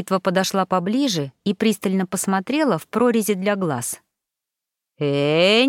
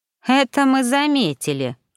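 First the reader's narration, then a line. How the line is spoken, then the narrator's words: Snorting. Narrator (Russian): хмыкнула ворона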